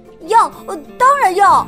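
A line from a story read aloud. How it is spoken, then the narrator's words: Happy loud shout. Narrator (Chinese): 安迪高兴的大声喊道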